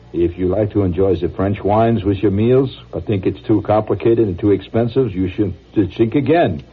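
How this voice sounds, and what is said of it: Put-on French accent. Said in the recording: “reading the French accent ... It says, pronounce chink again.”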